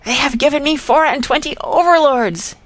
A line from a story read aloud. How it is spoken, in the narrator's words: he screamed